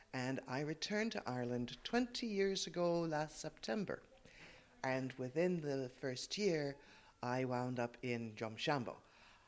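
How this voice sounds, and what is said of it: Canadian accent. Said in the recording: “That's not a local accent. ... this is a Canadian accent.”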